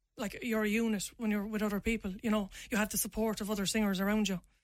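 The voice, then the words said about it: Irish accent, Limerick. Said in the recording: “you need to kind of lose your accent a little bit ... I am from Limerick City, I am from Ireland ... I want to rap in my own voice”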